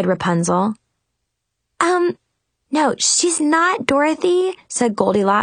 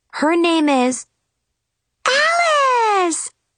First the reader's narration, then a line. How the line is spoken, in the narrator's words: squealed in unison